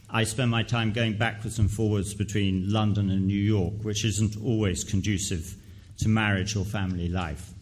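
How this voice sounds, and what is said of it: English accent. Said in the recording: “as you can tell by my voice, I'm English.”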